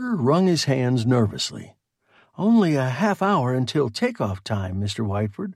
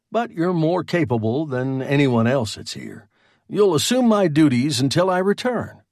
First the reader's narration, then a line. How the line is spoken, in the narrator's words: Whiteford said dryly